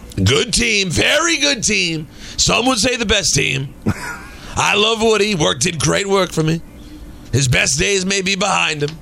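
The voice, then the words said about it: Donald Trump impression. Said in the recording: “You're very good at imitating presidents. Unless you're 45, we haven't heard from him in a while. ... I'm out of 45.”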